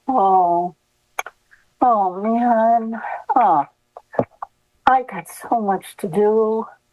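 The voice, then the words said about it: Self-pitying, sorry-for-myself tone. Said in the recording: “I'm going to feel sorry for myself ... That's a tone of voice.”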